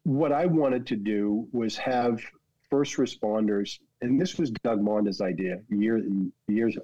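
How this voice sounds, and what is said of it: Boston accent, intrusive R. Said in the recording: “That's a Boston freaking accent. ... Get rid of the R over here and put it on a freaking sentence that ends in a vowel.”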